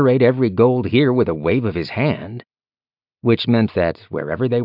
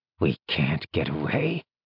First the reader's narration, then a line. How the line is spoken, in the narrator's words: Jialong muttered